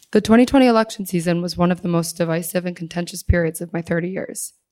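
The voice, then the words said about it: Hoarse, strained voice. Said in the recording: “I lost my voice, so I apologize.”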